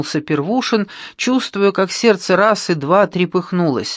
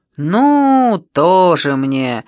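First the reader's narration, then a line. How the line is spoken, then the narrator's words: Disappointed drawl. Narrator (Russian): разочарованно протянул Витька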